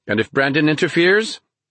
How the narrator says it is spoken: Pena asked sharply

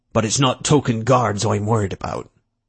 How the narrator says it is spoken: Barker grumbled

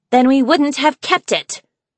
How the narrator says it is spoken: she snarled at Lynx

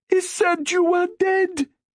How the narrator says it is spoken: he wailed

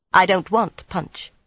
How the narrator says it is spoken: Egwene said curtly

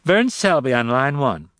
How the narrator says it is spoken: Ruby called out

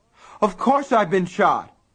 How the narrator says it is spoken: Norris screamed

